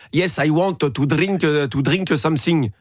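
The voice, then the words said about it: English with a smooth French accent. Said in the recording (French): “Ça, c'est un accent français... C'est un accent français coulant”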